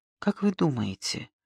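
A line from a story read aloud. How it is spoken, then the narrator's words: Timid question. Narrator (Russian): робко спросил он у Линта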